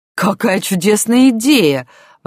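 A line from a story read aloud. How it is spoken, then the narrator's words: Exclamation. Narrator (Russian): воскликнула Ефросинья Кузьминишна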